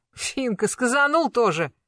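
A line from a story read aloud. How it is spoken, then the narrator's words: Wry snort. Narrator (Russian): хмыкнула Аксинья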